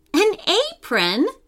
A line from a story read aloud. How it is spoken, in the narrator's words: Lila exclaimed